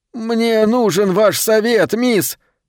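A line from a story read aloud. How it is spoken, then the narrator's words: Pleading. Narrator (Russian): взмолился он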